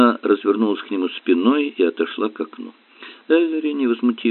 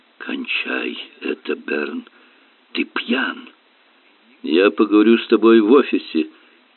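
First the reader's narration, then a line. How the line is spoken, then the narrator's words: Hoarse declaration. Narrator (Russian): заявил осипшим голосом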